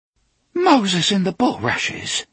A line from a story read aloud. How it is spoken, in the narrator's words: she gasped